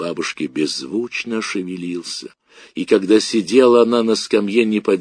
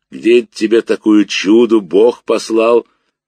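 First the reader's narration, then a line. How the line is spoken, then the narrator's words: Peaceful humming old man. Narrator (Russian): Мирно прогудел дедушка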